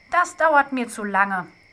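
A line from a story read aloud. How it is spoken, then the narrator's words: Plain. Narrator (German): sagte Hebelmann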